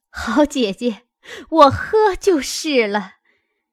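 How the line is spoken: Laughing. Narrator (Chinese): 凤姐儿……笑道

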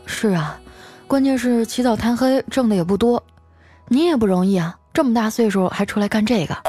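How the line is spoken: Sighing. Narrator (Chinese): 我叹了口气说

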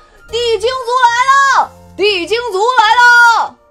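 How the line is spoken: Sudden loud shout. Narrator (Chinese): 精灵战士突然大喊

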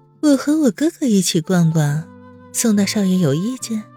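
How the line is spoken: Stiff, strained. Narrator (Chinese): 温之夏笑容一僵

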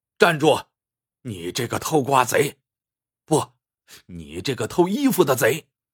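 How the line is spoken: Thunderous angry shout. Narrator (Chinese): 炸雷似的一声怒喝

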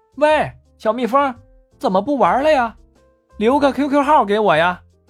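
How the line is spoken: Calling out. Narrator (Chinese): 文文喊

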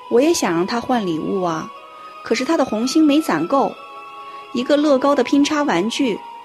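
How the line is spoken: Sighing. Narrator (Chinese): 鹏鹏妈妈叹了口气

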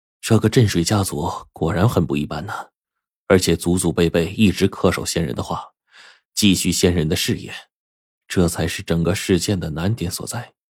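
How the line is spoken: Admiring exclamation. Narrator (Chinese): 我不由得感叹了一声

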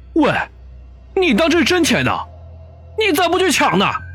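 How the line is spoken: Angry shouting. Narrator (Chinese): 老大一听就火了，连忙扯着嗓子喊道

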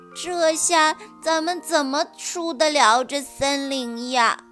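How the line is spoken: Comforting tone. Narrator (Chinese): 黑泽尔却安慰他说

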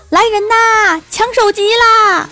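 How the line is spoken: Old woman's loud shout. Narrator (Chinese): 老太太大声一喊

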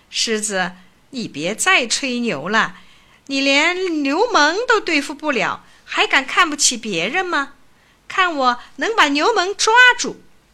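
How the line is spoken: Scornful, mocking. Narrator (Chinese): 狮子很瞧不起蜘蛛，讥笑蜘蛛说

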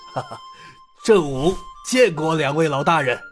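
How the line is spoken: Cheerful grinning. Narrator (Chinese): 郑武……笑嘻嘻的道

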